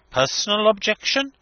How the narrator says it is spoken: he exclaimed

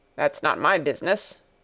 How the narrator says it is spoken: grumbled the coachman

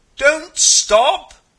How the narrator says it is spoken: you roar

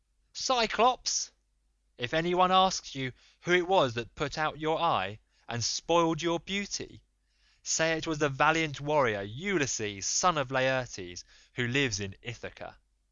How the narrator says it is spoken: shouted out to him in my rage

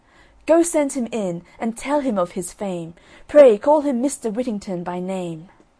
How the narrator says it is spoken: the merchant called out to his servants

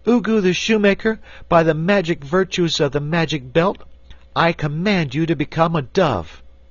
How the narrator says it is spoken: cried in a loud voice

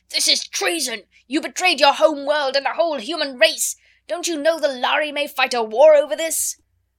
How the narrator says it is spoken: the delegate from his home star of Vega shouted to him

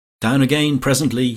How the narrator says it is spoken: he called out

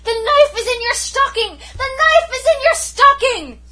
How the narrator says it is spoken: shrieked at the top of my voice

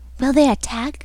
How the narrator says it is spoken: whispered an odd voice

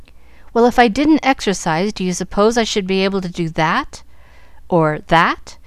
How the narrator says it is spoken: cried Jack

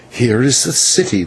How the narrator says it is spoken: whispered the señor

